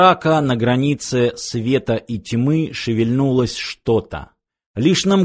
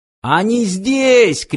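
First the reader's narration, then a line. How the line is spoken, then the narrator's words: Shout. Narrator (Russian): крикнул Фиф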